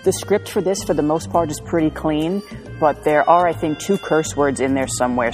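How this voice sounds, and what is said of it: New York accent. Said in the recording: “I have a New York accent.”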